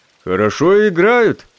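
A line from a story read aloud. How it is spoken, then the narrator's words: Deep bass voice. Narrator (Russian): сказал Панин басом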